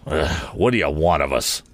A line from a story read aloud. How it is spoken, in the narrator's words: growled Morse